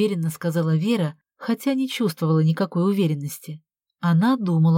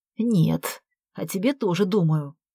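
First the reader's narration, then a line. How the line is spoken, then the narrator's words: Hmph. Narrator (Russian): Вера хмыкнула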